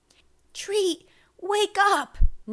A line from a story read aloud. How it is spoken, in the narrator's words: Nana pleaded from the floor